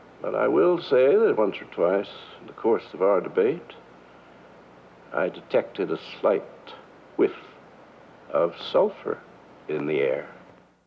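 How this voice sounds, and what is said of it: Amusing patrician drawl. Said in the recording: “You can hear from that amusing patrician drawl that Gore Vidal is at the top of his form”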